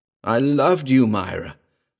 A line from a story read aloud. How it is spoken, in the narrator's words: cried Patou